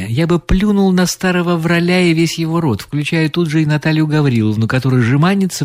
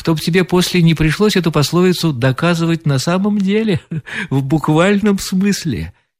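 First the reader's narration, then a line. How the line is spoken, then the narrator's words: Laughing reply. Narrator (Russian): отвечал смеясь Корсаков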